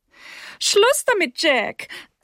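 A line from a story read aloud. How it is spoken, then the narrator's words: Mother, giggling. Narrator (German): sagte seine Mutter kichernd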